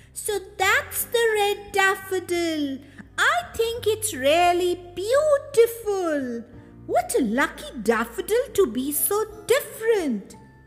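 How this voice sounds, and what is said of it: Loud, big little-girl voice. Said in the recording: “exclaimed the little girl in a very big voice”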